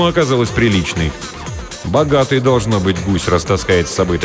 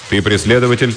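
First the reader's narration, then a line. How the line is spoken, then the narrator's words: Plain question. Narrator (Russian): спросил офицер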